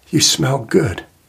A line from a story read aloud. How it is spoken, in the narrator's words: she whispered